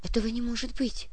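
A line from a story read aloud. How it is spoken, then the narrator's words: Whisper. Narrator (Russian): прошептала Леночка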